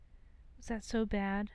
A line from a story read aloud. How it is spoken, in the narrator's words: Potter breathed into his mouth